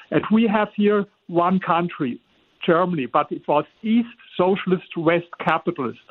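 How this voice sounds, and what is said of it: German accent in English. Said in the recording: “I live in Germany. You hear it with my accent.”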